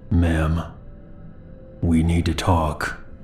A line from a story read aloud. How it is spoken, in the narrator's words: He then spoke in a low, calm voice